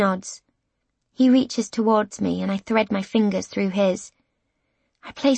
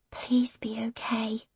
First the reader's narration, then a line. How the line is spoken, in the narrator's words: I whisper